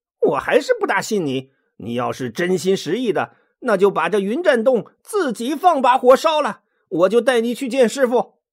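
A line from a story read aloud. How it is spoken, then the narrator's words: Suppressing laughter. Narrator (Chinese): 孙悟空在一旁强忍着笑说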